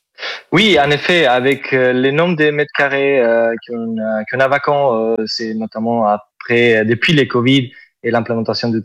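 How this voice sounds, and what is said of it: Southern French accent. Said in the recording (French): “Vous avez un super superbe accent ... C'est l'accent donc, du sud ... c'est joli”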